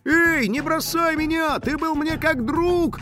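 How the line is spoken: Desperate wail. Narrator (Russian): завопил скейтбордист

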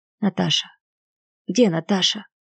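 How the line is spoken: Weak voice. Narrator (Russian): слабым голосом произнес он

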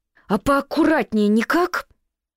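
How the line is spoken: Frightened yell. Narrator (Russian): заорала с перепугу

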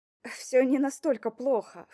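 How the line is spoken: Snorting, lying. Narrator (Russian): фыркнула я, бессовестно соврав

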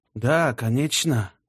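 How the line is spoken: Timid mumbling. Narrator (Russian): промямлил собеседник судьи, слегка оробев от его официального тона

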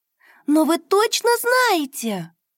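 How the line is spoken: Exclaiming. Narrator (Russian): воскликнула Дуняша

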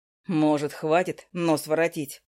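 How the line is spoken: Mocking question. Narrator (Russian): насмешливо спросил Макс

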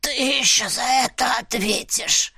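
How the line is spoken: Pained wheeze. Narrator (Russian): прохрипел он, складываясь пополам

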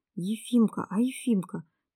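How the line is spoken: Anxious whisper. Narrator (Russian): тревожным шепотом спросил Николашка

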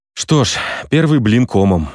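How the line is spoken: Sighing. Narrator (Russian): вздохнул я

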